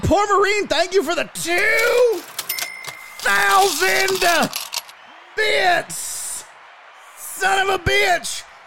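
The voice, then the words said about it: Strained imitation of another person's voice. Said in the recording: “talking like a constipated Jim Ross”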